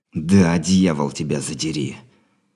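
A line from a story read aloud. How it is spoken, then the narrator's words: Venomous hateful hiss. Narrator (Russian): С ненавистью, источающей яд змеи, прошипел Андрей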